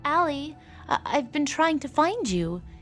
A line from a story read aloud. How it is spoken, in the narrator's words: Amy stammered